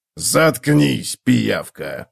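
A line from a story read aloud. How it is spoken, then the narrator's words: Growled. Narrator (Russian): прорычал Готрек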